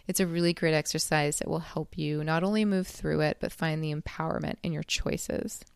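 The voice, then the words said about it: Tired, late-night voice. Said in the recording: “I'm recording this kind of late at night, so if my voice is a little tired”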